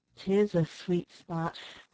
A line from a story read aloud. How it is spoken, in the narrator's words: remarked his uncle in a low, sad tone